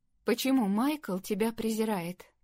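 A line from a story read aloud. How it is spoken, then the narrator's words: Plain. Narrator (Russian): спросила она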